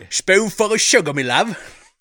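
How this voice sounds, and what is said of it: Exaggerated bad Cockney accent. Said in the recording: “With his terrible British accent. ... It got terrible Cockney accent.”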